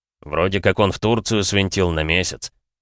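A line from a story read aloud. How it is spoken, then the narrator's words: Deep bass voice. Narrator (Russian): пробасил Банан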